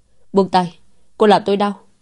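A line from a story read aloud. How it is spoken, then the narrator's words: Loud pained tearful cry. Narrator (Vietnamese): Tống Thiệu Vân hét to một tiếng, đau đến nước mắt chảy ra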